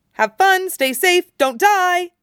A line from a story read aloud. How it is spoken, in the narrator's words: Brian shouted